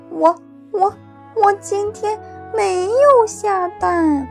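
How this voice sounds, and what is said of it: Quiet, hesitant stammering voice. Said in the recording (Chinese): “小声地说道”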